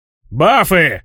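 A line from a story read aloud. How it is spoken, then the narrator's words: Shout. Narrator (Russian): закричал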